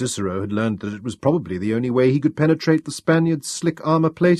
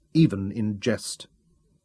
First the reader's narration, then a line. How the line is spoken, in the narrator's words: said coldly